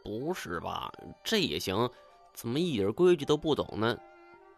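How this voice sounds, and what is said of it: Quiet muttering voice. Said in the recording (Chinese): “小声在我身边嘀咕”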